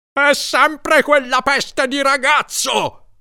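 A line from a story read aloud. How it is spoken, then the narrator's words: Roared. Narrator (Italian): ruggiva Larry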